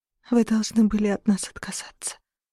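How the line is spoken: Whisper. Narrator (Russian): прошептала лунный свет

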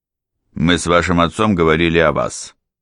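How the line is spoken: Sharp announcement. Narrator (Russian): резко объявил господин Боуринг

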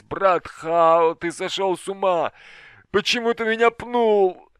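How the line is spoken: Groaning, cursing. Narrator (Russian): стонал, ругаясь

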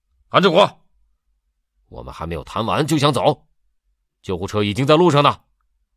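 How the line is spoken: Loud shout. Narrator (Chinese): 张贵刚大声叫道

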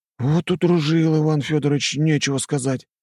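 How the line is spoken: Gloomy. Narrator (Russian): мрачно сказал Нарышкин

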